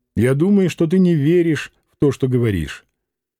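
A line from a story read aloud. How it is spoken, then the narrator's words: Very calm reply. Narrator (Russian): Лидия ответила очень спокойно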